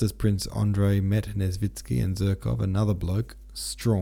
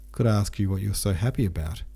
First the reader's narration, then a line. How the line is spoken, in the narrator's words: answered Bolkonsky